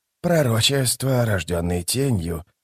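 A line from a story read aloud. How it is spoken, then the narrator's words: Muttered. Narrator (Russian): пробормотал верховный жрец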